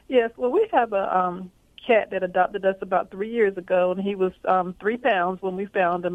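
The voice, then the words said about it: Southern US accent. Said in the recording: “I hear the accent now ... southern accent”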